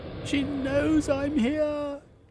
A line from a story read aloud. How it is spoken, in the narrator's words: Velveen cried